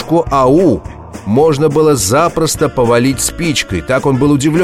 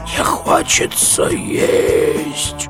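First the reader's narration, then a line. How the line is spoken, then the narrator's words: Weak flower voice. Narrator (Russian): цветок сказал довольно слабым голосом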